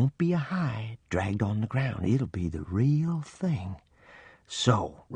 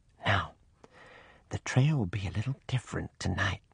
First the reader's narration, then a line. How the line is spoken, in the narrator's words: I whispered